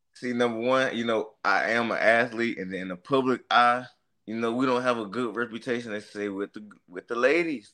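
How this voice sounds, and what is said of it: Southern country accent. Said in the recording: “I'm from Mississippi. So, like, I don't know if y'all can tell by the accent. I'm a little country.”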